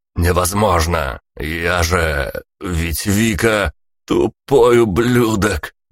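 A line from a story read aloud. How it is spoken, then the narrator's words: Hoarse guffaw. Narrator (Russian): Хрипло хохотнул Тони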